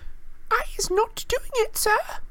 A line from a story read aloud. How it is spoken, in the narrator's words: she squealed, her eyes rolling in terror